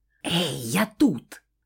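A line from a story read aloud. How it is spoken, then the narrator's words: Loud whisper. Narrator (Russian): Вновь раздался громкий шепот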